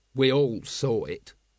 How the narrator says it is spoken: said Vimes

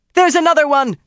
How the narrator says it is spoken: Kirstjan shouted

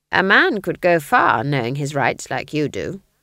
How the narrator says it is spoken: said Granny

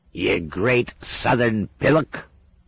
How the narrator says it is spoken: it croaked

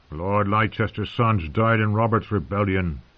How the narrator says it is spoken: grumbled Lem

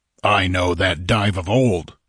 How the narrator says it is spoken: grunted Conan

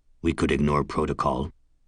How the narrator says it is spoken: Sharp muttered

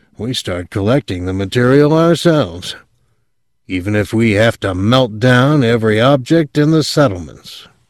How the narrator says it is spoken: O'Neill said grimly

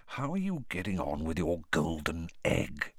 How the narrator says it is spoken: he lowered his voice

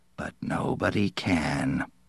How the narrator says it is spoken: Berthelsen said softly

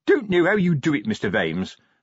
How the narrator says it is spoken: said Sergeant Colon cheerfully

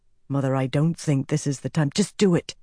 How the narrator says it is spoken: Egwene hissed

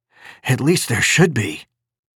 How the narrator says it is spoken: he said gaspingly

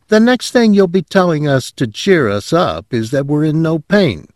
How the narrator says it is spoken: Crane said cheerfully

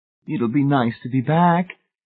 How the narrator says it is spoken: Edith Pritchett said in a wavering, uncertain voice

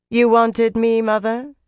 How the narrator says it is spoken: Tarna said coolly

